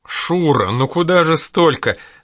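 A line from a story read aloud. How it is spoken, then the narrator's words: Flirtatious laugh, mother. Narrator (Russian): засмеялась мать кокетливо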